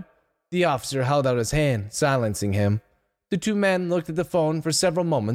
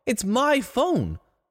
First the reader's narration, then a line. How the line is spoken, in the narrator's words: Donald exclaimed